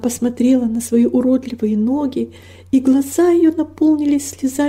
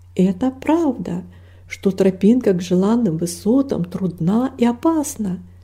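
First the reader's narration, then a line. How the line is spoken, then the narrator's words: Plain. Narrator (Russian): сказал пастырь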